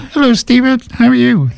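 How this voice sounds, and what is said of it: Imitates another person's voice. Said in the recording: “do an impersonation.”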